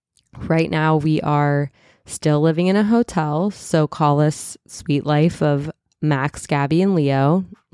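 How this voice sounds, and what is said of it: Stuffy, slightly raspy voice. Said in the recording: “I'm stuffy because I just had a cold, so you can probably hear that. I'm a little raspy.”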